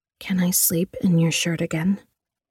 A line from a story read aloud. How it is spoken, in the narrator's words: She whispered softly in his ear